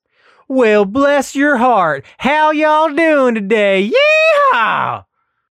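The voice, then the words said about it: Exaggerated put-on Texan accent. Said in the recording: “putting on a Texan accent ... Maybe a little more, please.”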